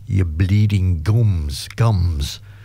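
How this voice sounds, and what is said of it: English accent. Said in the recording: “I kept hearing it in an English accent”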